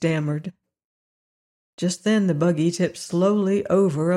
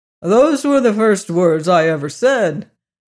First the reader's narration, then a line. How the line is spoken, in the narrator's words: called out the horse who had overheard them